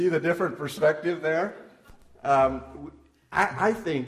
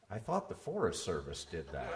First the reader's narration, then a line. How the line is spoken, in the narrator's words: my friend Gary whispered in my ear